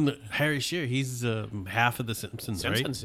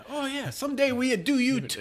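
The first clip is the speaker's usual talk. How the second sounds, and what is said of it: Bad put-on Italian accent. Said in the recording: “That's a bad Italian accent”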